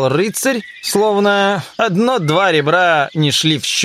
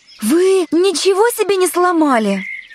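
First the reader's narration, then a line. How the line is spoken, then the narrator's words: Frightened, anxious question. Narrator (Russian): она перепугалась и взволнованно спросила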